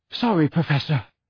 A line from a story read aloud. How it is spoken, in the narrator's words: he panted